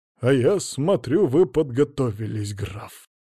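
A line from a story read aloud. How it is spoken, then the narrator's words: Speaking through clenched teeth. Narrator (Russian): процедил Ануфьев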